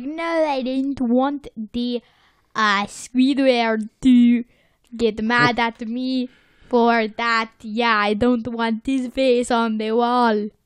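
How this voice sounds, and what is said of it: Poorly done put-on accent, maybe French. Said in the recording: “I don't know what accent I was trying to do... Let's hope that was bad French.”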